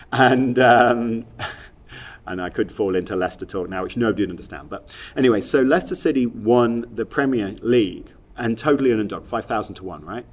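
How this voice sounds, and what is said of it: Leicester English accent. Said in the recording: “I'm from Leicester, as you can tell from my accent.”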